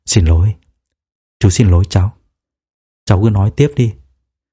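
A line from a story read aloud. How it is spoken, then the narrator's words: Gentle, fatherly. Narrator (Vietnamese): Điền Việt Tiến, giống như một người bố nói với con trai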